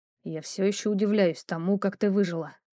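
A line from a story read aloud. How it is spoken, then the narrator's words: Muffled mutter. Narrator (Russian): пробормотал он мне в макушку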